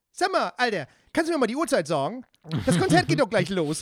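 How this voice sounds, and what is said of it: Bright friendly voice, Hamburg dialect. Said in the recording (German): “mit so einer ganz hellen, netten ... Stimme mit einem Hamburger Dialekt”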